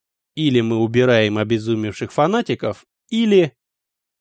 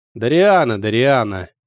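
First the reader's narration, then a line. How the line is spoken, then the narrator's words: Father grumbling. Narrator (Russian): проворчал отец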